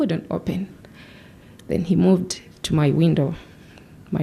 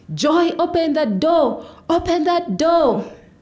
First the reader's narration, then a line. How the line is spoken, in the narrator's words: his brothers joined in, screaming